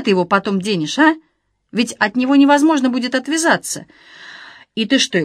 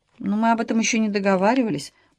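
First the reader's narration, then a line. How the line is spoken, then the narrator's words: Muttered. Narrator (Russian): пробормотала Александра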